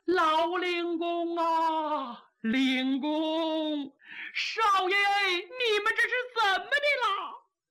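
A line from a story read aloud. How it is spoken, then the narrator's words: Crying. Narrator (Chinese): 有人哭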